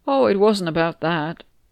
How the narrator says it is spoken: Bron and I said in one voice

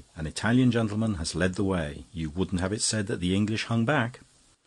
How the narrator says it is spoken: said Frank very warmly

